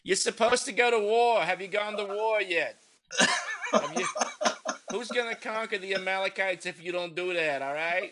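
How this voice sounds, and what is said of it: Put-on New Jersey accent. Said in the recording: “I pictured Bathsheba with a New Jersey accent.”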